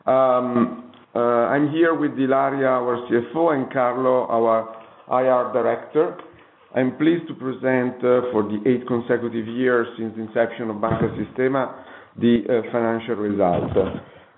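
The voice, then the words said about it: Unwell, affected speaking voice. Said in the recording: “Apologize for the voice, but that is due to weather condition.”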